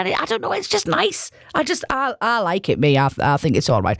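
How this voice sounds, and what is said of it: Teesside English accent. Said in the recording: “are you from Teesside? ... wear your accent with a badge of honour”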